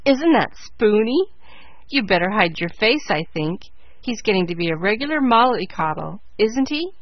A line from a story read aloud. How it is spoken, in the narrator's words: jeered Joe